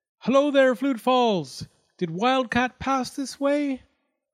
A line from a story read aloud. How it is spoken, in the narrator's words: Ichiro shouted up at it